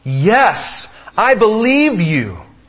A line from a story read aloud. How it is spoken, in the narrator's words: cried the man